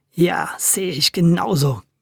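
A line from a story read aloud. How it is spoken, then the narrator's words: Growling. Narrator (German): knurrte Tommy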